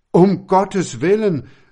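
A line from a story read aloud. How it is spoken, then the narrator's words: Terrified cry. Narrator (German): rief der Herr Wilhelm voll Schrecken aus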